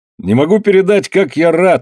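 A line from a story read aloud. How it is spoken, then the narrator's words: Exclamation. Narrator (Russian): воскликнул Андре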